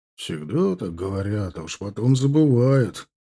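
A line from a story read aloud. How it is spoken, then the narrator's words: Grunting, quiet group grumbling. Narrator (Russian): Кряхтя и тихонько ворча под нос, кавалеристы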